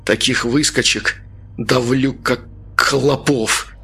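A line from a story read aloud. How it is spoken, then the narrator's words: Forced through clenched teeth. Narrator (Russian): выдавил Артем сквозь зубы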